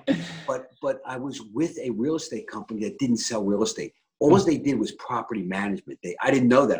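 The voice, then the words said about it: Philadelphia accent. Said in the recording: “I have a bad Philly accent”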